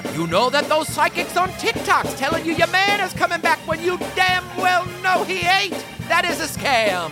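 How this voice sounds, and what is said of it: Preacher voice. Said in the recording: “putting on my best preacher voice”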